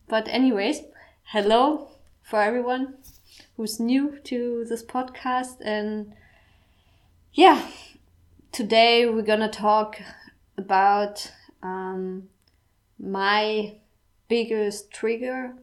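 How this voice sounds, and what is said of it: Strong German accent in English. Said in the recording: “my English is like my accent is super German”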